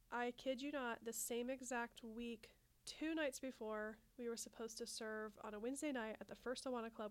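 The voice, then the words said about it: Congested, slightly scratchy voice. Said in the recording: “You can probably hear that I have some congestion. ... My voice is a little bit scratchy”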